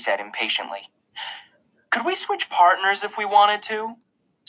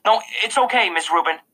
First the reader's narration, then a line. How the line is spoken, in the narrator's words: I said quickly